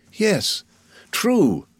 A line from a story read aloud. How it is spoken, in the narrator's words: replied Madame de Villefort somewhat uneasily